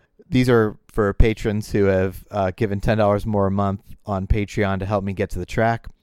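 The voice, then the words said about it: Unusually deep radio-style voice. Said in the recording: “I prefer my voice being this deep, so maybe I can keep it this deep ... This is much more of a radio podcast voice ... before my voice changes back to its normal higher pitched tone.”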